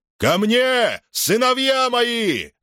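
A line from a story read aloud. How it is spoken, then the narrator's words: Shout. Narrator (Russian): закричал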